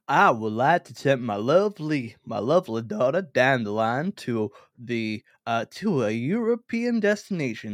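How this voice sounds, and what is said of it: Put-on wealthy American accent. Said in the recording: “I'm going to try and be a wealthy American ... Is this a problematic accent? ... that's not a problematic accent”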